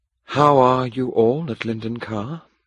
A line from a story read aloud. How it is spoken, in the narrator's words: asked softly